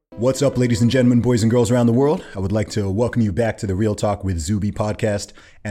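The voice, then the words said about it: Rich radio-style speaking voice. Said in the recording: “I like your voice... A lot of people say I have a radio voice... Like a golden voice”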